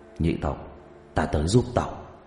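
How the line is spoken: Low muttering. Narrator (Vietnamese): cúi đầu lẩm bẩm trong miệng

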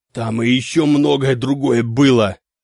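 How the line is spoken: Hoarse wheeze. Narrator (Russian): просипел Клаус Мария

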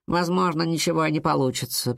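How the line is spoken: Grumbling. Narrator (Russian): проворчала Кадабра

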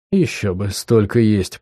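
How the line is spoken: Muttering. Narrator (Russian): пробормотал я

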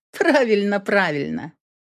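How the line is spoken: Laughing. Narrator (Russian): рассмеялась Эйприл

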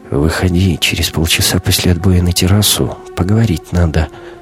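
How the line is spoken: Whisper. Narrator (Russian): капитан шепнул Кате

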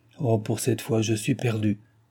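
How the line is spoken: Murmur. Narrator (French): murmura-t-elle

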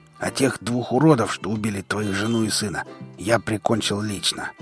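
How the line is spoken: Hoarse rasp. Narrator (Russian): прохрипел Шрам

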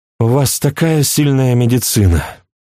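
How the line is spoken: Sighing. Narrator (Russian): вздохнула Флоранс

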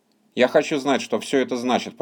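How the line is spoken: Mutter. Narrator (Russian): пробормотал Сэм

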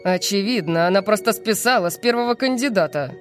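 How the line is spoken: Grumbling. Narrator (Russian): проворчал архимаг Дурис

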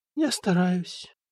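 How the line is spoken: Sad. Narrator (Russian): грустно сказала Людмила

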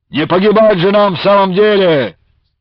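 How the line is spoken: Barked. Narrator (Russian): рявкнул один из братьев Сипягиных

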